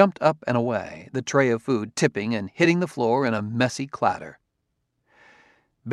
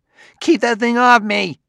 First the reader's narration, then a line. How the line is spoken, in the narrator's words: Klusar yelled